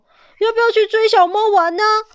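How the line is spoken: Loud shout. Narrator (Chinese): 狗儿大叫着说

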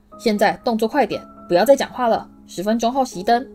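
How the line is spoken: Shouting. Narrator (Chinese): 派西喊道

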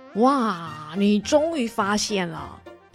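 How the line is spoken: Happy. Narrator (Chinese): 爸爸开心的说

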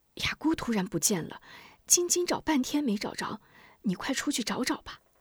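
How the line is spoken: Anxious, hushed voice. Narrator (Chinese): 吴夫人又心急又怕惊动吴明霞，压低声音道

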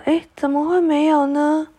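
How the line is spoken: Crying. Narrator (Chinese): 长树的胖脸这时又哭了起来

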